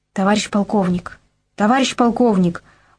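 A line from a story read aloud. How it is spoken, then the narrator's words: Cautious whisper. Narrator (Russian): осторожный шепот Сиоева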